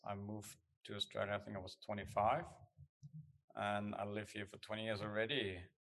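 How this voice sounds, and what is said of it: German accent. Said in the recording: “I come from Germany. That's where the accent is.”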